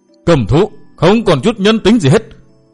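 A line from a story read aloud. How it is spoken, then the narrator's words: Frenzied loud roar. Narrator (Vietnamese): không chịu đựng được nữa, đã điên khùng gầm giống lớn tiếng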